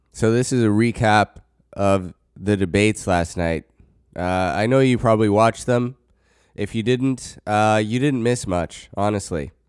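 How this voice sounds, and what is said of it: Noticeably affected, unwell-sounding voice. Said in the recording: “I'm still dealing with some pretty bad allergies. I'm pretty sure you can hear it in my voice now ... you can really, really hear it in my voice”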